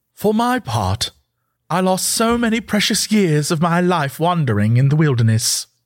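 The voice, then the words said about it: Impression of Mon Mothma. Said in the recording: “in his best Mon Mothma impression,”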